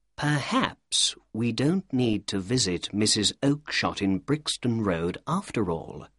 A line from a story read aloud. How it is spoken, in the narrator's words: said Holmes to me quietly